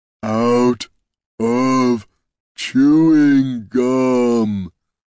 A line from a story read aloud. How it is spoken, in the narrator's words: rumbled Brunt